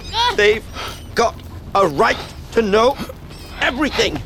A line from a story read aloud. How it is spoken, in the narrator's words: Lupin panted, still trying to restrain Black